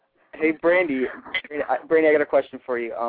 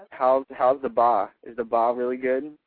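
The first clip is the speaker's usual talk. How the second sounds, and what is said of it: Mock Boston accent. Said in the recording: “Boston, Bostonian accent. I love her Mass accent.”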